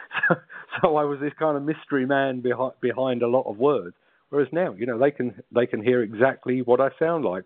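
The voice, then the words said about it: South London accent. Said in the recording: “a South London accent”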